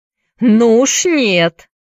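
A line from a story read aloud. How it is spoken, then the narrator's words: Defiant shout. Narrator (Russian): крикнул Чакерс вызывающим тоном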